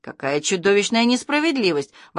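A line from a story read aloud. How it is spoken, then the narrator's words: Exclaimed. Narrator (Russian): воскликнул милиционер Караваев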